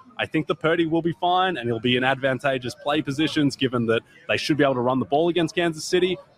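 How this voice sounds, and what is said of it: Non-American foreign accent. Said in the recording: “How much do American women love you for your accent?”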